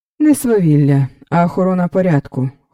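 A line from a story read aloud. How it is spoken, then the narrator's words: Cold reply. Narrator (Ukrainian): холодно відповів Раубенфельд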